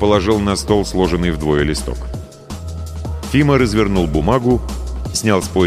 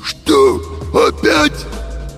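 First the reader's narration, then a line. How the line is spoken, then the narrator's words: Wheezy cartoon wolf voice. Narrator (Russian): просипел Фима голосом мультяшного волка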